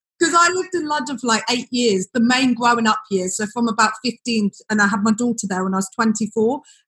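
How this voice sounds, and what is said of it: Slight London twang. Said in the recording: “I have a bit of a London twang ... like Surrey anyway. So I have a little bit of it.”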